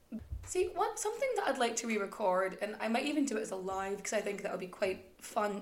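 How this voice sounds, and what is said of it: Accent between Irish and Scottish. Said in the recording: “my accent can sort of weave in and out between sort of Irish and Scottish and some weird no man's land in between the two”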